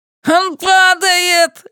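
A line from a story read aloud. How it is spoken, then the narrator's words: Joyful yell. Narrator (Russian): радостно вопит Ленни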